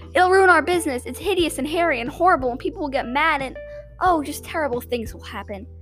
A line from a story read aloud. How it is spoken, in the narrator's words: she woke up and cried